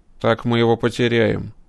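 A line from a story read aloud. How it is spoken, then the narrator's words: Grim. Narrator (Russian): мрачно пообещал кибернетик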